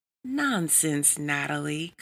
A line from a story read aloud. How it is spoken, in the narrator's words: cooed Sherry